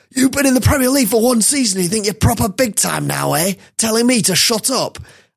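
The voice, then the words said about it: Sean Dyche impression, Tyson Fury-like accent. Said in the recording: “Hope you like my accents there. Dyche sounded quite Tyson Fury.”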